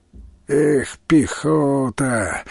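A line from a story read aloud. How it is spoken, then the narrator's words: Soldier's sigh. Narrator (Russian): вздохнул кто-то в солдатском ряду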